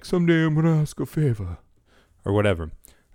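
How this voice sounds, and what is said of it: Poor Godfather character impression. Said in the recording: “my terrible Godfather impression.”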